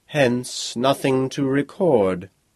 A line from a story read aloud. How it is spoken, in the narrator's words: the bard purred cuttingly